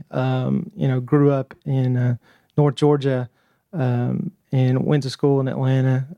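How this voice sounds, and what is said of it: Southern twang accent. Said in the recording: “my twang in my voice”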